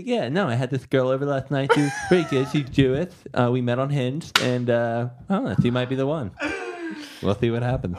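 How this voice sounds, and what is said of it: Caricatured impression resembling Seinfeld. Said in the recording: “that's ... impression of me ... more of a caricature ... a pretty good impression ... it kind of sounds like Seinfeld”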